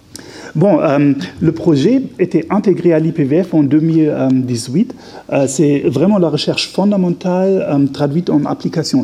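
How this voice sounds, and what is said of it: Slight German accent in French. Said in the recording (French): “vous avez remarqué peut-être probablement un petit accent. Oui, je suis d'origine allemande”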